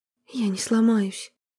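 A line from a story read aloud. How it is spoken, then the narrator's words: Hoarse. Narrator (Russian): она прохрипела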